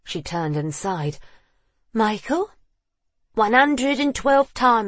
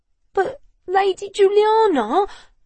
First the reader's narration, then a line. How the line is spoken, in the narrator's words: George whined